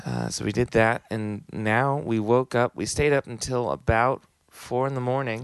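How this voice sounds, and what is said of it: Hoarse, strained voice. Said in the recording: “My voice is a little shredded from doing a bunch of screaming”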